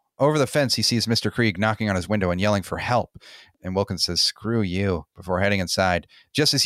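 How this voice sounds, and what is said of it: Usual voice. Nothing is said of it.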